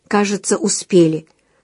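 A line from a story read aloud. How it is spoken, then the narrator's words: Relieved exhale. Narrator (Russian): с облегчением выдохнула Галя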